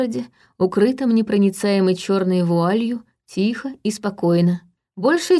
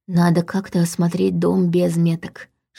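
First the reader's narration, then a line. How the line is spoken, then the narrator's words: Whispered. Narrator (Russian): шепнула она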